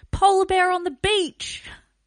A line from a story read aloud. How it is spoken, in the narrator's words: Marta's husband, Keycab, yelled